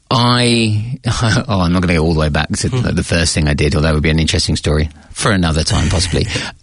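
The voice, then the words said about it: British accent. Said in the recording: “you may be able to tell from the accent, I am British”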